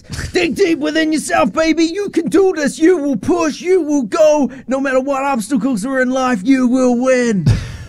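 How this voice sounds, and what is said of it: Hyped-up motivational speaker impression. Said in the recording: “someone hyping him up, motivational speeches. ... impersonation of that”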